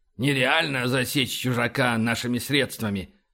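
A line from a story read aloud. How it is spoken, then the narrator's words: Grumbling. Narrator (Russian): проворчал Файн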